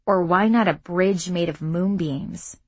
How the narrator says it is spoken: She grumbled

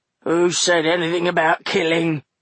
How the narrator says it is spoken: growled Buster

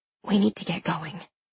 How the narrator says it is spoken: I whisper

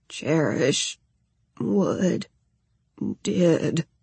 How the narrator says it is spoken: he rasped out, voice thick with pain

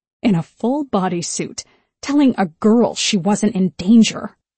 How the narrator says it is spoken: she muttered

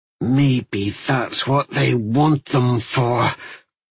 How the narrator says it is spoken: Aulin said with a growl

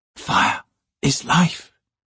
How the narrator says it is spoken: she whispered, the phrase seeming to rise from the depths of instinct

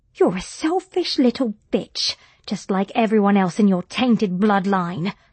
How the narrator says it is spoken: spat Margaret

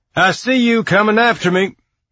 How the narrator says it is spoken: Alex's shout sang

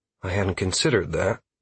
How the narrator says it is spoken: I whispered softly

